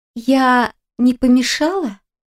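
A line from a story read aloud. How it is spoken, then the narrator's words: Hesitant, then rapid. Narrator (Russian): неуверенно спросила она и добавила скороговоркой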